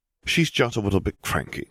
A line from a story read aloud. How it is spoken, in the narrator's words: Harry said